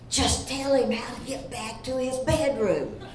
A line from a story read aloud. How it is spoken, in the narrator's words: I turned to Herman and whispered